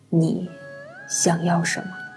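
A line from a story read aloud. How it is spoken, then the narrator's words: Cold, lowered voice. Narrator (Chinese): 柳灵玉冷清的嗓音压低了少许，问出了一句颇为冷冽的话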